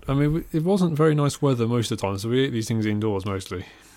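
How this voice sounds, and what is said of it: Posh English accent. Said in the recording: “my accent is not one that the phrase "dirty fries" sounds believable in. I think I sound a bit too posh”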